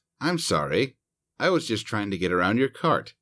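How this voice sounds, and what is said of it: Innocent-sounding voice. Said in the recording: “in an innocent voice”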